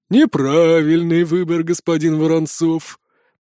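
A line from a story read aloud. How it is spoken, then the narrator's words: Growling. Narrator (Russian): прорычала Варра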